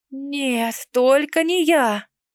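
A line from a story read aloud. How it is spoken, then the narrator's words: Moan. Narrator (Russian): простонала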